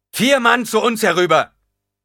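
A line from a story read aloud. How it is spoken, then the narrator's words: Nobleman roaring. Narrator (German): brüllte der Herzog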